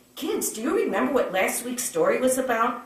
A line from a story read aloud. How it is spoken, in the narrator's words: asked brightly